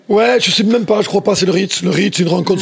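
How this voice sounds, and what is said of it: Southwestern French accent. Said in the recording (French): “quel gars du Sud-Ouest. Moi, je monte à Paris avec mon accent qui était encore pire à l'époque. Personne ne me comprenait.”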